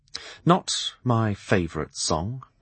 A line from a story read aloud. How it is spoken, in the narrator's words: I said quietly